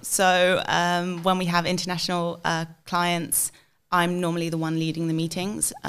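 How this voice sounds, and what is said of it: English accent. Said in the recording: “my English accent definitely helps... the English accent... it just sounds a little bit more professional”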